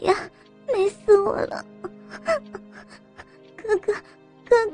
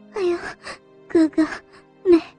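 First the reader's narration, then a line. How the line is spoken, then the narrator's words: Breathless coquettish moan. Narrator (Chinese): 柳细衣娇喘吁吁的哼着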